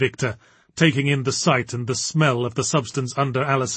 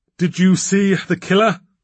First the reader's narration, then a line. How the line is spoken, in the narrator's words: panted Adam